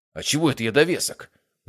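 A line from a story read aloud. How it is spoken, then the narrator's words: Indignant question. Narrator (Russian): возмущенно спросил Матвей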